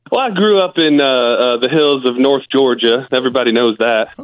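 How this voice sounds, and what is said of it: Put-on regional accent. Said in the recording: “this accent”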